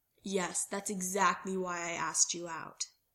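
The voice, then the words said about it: Flat, deadpan delivery. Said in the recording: “Derek deadpanned.”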